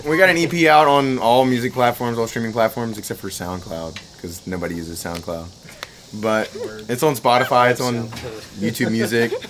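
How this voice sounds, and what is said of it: Loud, projecting radio voice. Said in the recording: “He's got a good voice. You've got a great ... You got a radio voice. ... I'm loud, yeah. I've been told I'm loud, so I project a little more than I mean to”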